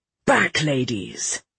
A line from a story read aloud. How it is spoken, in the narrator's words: Vale snapped